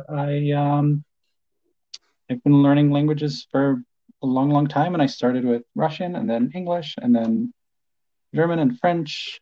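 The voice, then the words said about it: Polish-accented English. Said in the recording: “he has an amazing accent, ... is from Poland, so he's a native Polish speaker”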